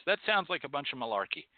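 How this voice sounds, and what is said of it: Brief put-on Irish accent. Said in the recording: “he gets a little bit of an Irish accent when he says the word malarkey”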